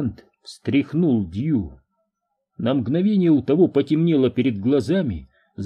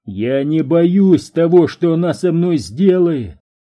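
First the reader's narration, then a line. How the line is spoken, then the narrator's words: Shouting. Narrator (Russian): кричал Перри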